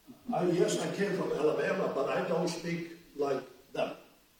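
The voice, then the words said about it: Foreign-accented English. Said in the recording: “you realize I have an accent, right? ... He doesn't sound like he's German.”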